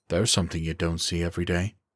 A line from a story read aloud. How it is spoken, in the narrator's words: Wade muttered